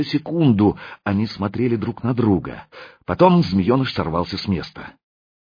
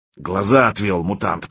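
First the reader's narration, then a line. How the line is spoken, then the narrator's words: Booming drone. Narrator (Russian): прогудел Круче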